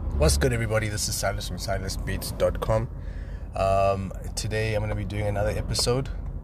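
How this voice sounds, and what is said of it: Sick, strained voice. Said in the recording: “excuse my voice. ... I'm actually recovering from what I think is COVID ... my voice started giving me issues”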